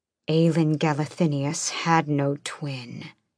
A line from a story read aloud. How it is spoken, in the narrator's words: he growled